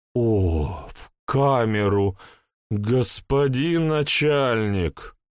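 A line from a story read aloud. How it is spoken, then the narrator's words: Reproachful drawl. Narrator (Russian): укоризненно протянула она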